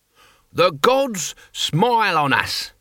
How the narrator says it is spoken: he bellowed

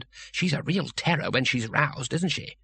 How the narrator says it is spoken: Two Flower whispered

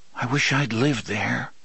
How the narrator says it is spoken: said wistfully

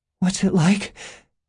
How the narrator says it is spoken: gasped

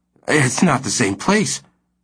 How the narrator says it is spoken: Stanley said hoarsely

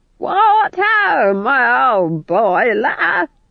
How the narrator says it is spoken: she screeched above the din

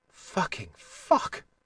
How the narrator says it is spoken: whispered

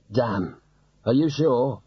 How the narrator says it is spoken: There were other groans

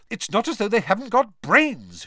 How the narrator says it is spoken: she continued irritably

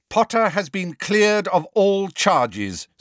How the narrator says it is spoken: said McGonagall even more loudly

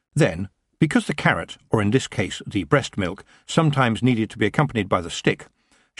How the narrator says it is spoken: she added sternly

